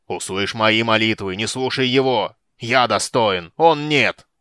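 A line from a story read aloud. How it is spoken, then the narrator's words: Gnome roaring. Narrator (Russian): Гном взревел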